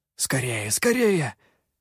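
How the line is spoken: Urgent hissing whisper. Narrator (Russian): шипящим шепотом, подгонял он

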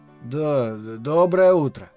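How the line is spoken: Mumbled, suppressing a sigh. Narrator (Russian): промямлил я, подавив тяжелый вздох

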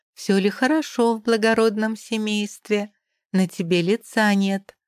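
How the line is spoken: Sugary-sweet drawl. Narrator (Russian): тянет ласково-приторно

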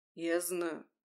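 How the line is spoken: Soft. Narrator (Russian): мягко проговорил Януш

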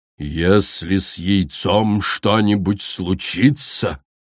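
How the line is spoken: Menacing hiss. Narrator (Russian): грозно прошипела Коралл

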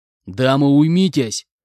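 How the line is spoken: Growled. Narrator (Russian): рыкнул я на них

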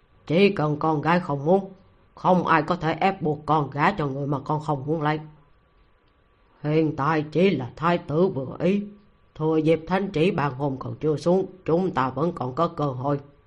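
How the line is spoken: Stern commanding voice. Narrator (Vietnamese): toát ra phong thái uy nghiêm của một vị tướng quân, nghiêm nghị nói

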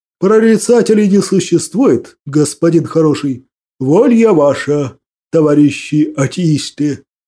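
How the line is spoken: Booming laugh. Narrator (Russian): Гулко рассмеялся

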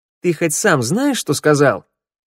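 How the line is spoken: Sharp. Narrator (Russian): Слова прозвучали резко

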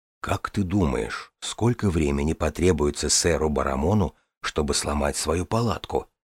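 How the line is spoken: Close whisper. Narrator (Russian): прошептал брат Коун Дорни, наклонившись к ней

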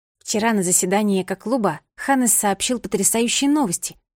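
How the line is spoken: Plain. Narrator (Russian): сказала подруга

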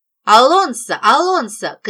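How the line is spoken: Shouting. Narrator (Russian): кричала я на управляющего нашим домом

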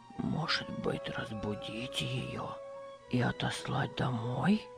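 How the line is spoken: Old man whispering. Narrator (Russian): шепотом спросил старик

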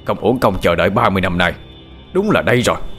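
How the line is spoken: Excited loud shout. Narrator (Vietnamese): Người đàn ông kia hồ hởi hét lớn

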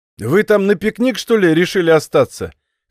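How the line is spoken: Drunken chuckle. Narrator (Russian): хохотнул уже изрядно подвыпивший хозяин дома

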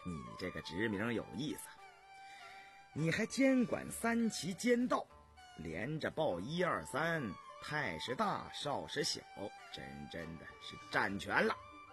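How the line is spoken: Laughing. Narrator (Chinese): 笑道

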